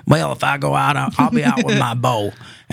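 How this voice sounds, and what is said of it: Put-on Southern US accent. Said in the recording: “he's from the South. That's the Southern accent.”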